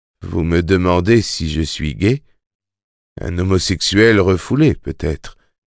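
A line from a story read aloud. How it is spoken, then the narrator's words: Weary but amused. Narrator (French): fit King d'une voix lasse mais amusée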